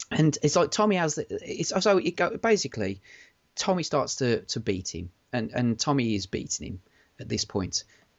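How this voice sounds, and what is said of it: Choked-up, emotional voice. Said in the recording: “I am getting choked up.”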